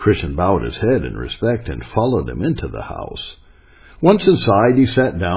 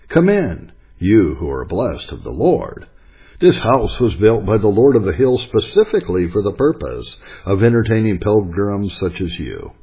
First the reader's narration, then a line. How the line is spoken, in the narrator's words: Many of them warmly welcomed him, saying